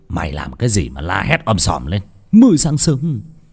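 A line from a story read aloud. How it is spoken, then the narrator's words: Sleepy, irritated shout. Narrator (Vietnamese): Ông Phát ngái ngủ quát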